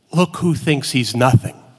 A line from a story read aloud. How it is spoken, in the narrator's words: the rabbi turns to the cantor and whispers